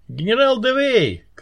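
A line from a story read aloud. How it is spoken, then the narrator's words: Stubborn shout. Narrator (Russian): крикнул Фаэтон, упрямо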